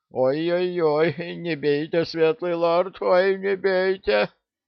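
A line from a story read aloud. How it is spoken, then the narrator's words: Whimpering plea, carpenter. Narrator (Russian): Плотник, хныкая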